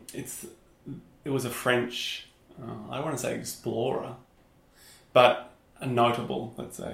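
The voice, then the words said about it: Strong Australian accent. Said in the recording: “in Australia, where we're from, as you could potentially tell by ... strong accent,”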